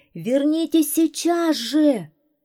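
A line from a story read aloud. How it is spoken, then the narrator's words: Even louder shout. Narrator (Russian): еще громче закричал лейтенант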